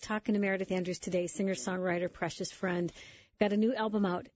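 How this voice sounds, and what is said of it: Congested voice from a cold. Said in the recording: “I have a little cold, excuse my voice.”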